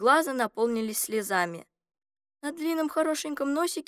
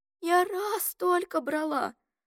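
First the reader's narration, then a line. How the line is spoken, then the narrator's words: Trembling voice. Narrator (Russian): сказала она дрожащим голосом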